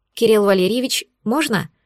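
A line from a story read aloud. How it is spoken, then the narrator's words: Trembling question. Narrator (Russian): дрожащим голосом спросила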